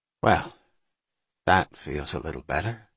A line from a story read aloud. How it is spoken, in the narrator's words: he said quietly to himself